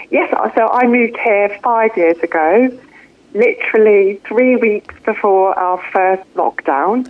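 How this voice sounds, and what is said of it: Non-New Zealand British accent. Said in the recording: “I'm detecting there's a little bit of an accent going on there... I haven't managed to pick up the Kiwi twang yet”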